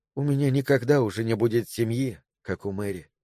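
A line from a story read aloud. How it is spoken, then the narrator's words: Muttered. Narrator (Russian): пробормотала она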